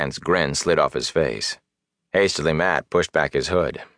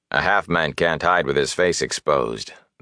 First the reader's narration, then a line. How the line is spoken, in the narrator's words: the warder said in a flat voice